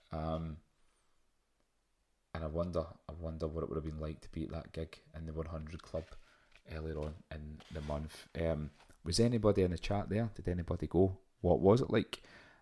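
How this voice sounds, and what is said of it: Thick Glaswegian accent, careful telephone voice. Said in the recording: “my very thick Glaswegian accent. This is actually, this is me putting on my telephone voice ... I'm usually a lot faster and my accent's a lot thicker”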